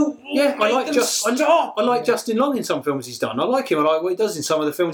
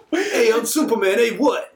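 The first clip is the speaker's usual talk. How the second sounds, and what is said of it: Mock Italian New Yorker accent. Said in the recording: “Italian New Yorker Superman ... Accent? ... it's so bad”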